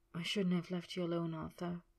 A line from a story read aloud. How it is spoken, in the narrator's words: he murmured against his lips